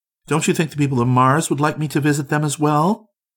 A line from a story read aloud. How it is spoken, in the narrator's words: exclaimed Orissa excitedly